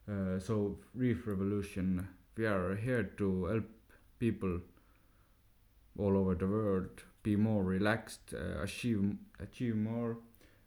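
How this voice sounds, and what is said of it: Thick non-American accent. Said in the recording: “As you can hear from my thick accent, I'm not from the USA”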